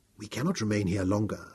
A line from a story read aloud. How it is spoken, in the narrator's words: told softly